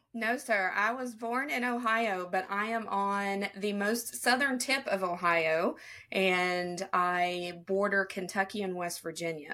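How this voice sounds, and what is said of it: Slight Southern American accent. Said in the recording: “I hear a little bit of Southern accent”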